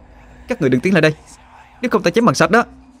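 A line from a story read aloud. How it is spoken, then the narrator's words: Shouting. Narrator (Vietnamese): Họa Hương cua cây kiếm gỗ trong tay mà hét lên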